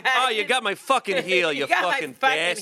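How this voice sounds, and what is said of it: Put-on Boston accent. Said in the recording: “Achilles has a Boston accent.”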